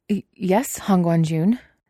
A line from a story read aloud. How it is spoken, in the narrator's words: the innkeeper stammers